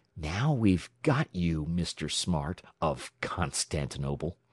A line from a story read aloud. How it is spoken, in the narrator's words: he whispered derisively